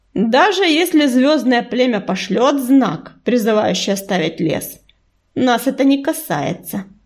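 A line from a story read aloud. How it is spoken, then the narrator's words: Cold. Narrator (Russian): холодно произнесла она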